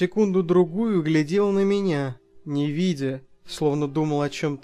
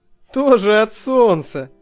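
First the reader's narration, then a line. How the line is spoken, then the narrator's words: Forced lively laugh. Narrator (Russian): засмеялся я оживленнее, чем надо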